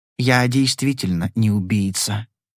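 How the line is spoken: Soft. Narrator (Russian): сказал он мягко

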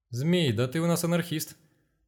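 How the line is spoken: Joyful exclamation. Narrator (Russian): радостно воскликнул Егор

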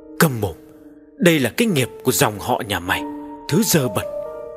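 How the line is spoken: Cold muttering. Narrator (Vietnamese): gã càng lạnh lùng, lẩm bẩm

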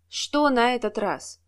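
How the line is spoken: Heavy sigh, then question. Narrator (Russian): Администратор тяжело вздохнул и спросил

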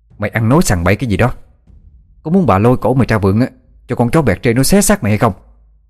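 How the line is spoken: Shouting at someone. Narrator (Vietnamese): Mụ hét vào mặt nó

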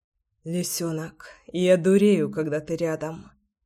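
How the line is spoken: Hoarse whisper. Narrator (Russian): хриплый шепот

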